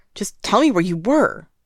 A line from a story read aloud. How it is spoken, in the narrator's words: Zhang Cheng yells, his fists clenching like he is tempted to start a fight